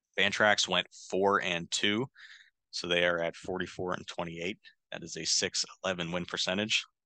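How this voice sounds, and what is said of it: Tired, strained voice. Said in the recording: “my voice is starting to go as I've been talking this whole time”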